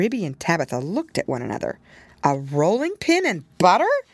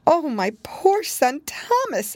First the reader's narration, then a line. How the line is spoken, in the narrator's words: exclaimed, wringing her paws